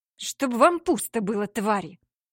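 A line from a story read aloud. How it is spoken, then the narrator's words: Humiliated hiss. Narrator (Russian): Прошипела она, и без того чувствуя себя униженной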